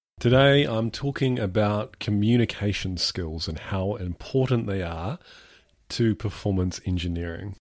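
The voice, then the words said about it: Congested, sniffly voice with a cold. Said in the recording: “I cough and splutter into the microphone ... As you can probably hear, I have a cold”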